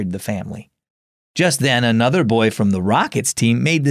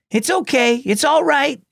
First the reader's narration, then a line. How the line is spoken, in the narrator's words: shouted